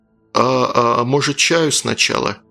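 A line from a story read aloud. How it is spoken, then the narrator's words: Nervous timid question. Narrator (Russian): Глеб нервно сглотнул и спросил робко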